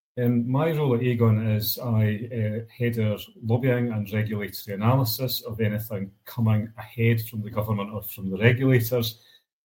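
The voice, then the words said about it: Scottish accent. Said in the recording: “I'm glad to see that we've got some dialogue in from Scotland, so at least some people will be able to follow my accent.”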